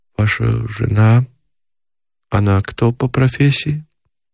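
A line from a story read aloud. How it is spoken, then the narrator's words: Hesitant, unsure question. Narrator (Russian): явно колеблясь, спросила неуверенно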